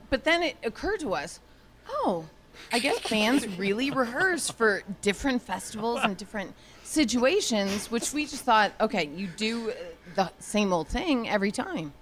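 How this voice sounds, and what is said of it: Drunk, slurred speech. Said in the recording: “I sound so drunk ... Because I was wasted.”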